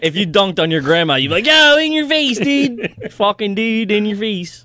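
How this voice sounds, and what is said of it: Put-on trashy Philadelphia accent. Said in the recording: “that's a classic trashy Philadelphia accent ... just did”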